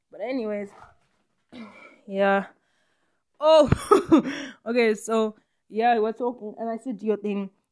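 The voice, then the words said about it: Out of breath, panting. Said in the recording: “I'm out of breath, but I'm stretching.”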